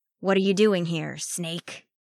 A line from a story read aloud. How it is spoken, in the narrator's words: growled, deep and menacing